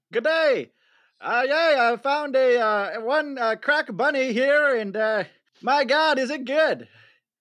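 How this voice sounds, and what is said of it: Put-on English-sounding character accent. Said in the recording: “a nice young Englishman ... accent, it's not a British accent, in case you're wondering”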